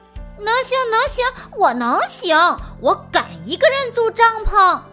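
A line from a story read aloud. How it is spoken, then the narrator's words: Loud insistent voice. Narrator (Chinese): 瑞奇大声地说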